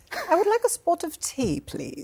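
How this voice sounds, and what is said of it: Put-on British accent. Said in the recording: “impersonation ... British ... British accent contest ... Well done. Well done.”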